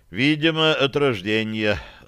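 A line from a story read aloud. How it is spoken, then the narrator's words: Sighed. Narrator (Russian): вздохнул Бозл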